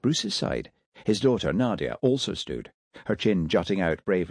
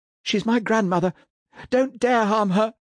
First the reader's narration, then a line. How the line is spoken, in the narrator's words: she said through her sobs